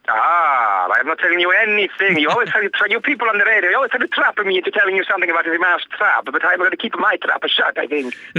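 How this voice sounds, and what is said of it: Put-on character accent. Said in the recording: “a completely different accent, which is always quite impressive”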